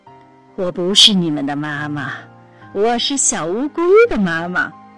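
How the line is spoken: Big turtle, laughing. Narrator (Chinese): 大乌龟笑着说

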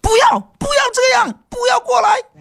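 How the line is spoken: Woman screaming on TV. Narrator (Chinese): 电门电视里面有个女人喊

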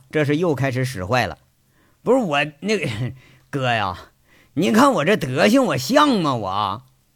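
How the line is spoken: Laughing question. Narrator (Chinese): 杨伟笑着问他

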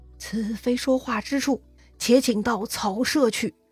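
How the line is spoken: Quiet voice. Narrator (Chinese): 王允小声说

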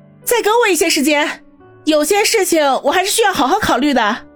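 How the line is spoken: Hesitant, then suddenly loud. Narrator (Chinese): 叶小楠……迟疑了一下，忽然对着王宇大声说道

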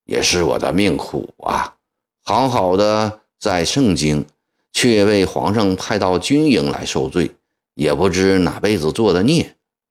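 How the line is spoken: Sighing. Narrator (Chinese): 德音行部叹了一口气，说

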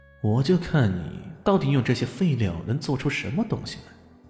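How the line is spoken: Inner muttering. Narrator (Chinese): 心里嘀咕道

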